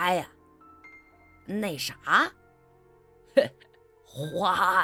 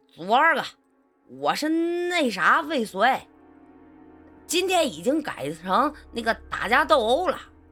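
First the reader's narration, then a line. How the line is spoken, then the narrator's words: Through gritted teeth. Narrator (Chinese): 孙胖子咬牙，说道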